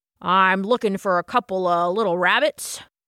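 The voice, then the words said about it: Strong, deep, booming male voice. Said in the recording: “said a strong, deep voice... his voice was so booming loud”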